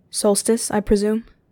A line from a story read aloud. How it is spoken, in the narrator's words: He asked, his voice level